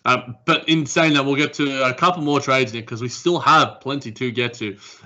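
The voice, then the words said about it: Speaks with a noticeable accent. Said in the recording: “you could probably understand my accent better than a lot of other listeners out there”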